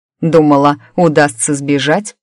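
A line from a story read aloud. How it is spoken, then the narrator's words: Red-haired man's scoffing grunt. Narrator (Russian): хмыкнул рыжий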